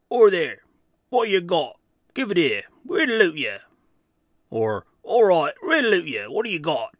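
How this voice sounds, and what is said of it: Cockney giant voice. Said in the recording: “Kind of a Cockney giant, I guess, but that was my attempt there.”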